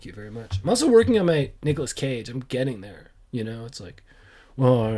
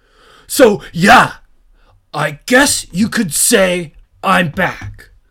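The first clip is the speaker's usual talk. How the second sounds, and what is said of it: Imitates a movie character's voice. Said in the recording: “That's my John Wick impression.”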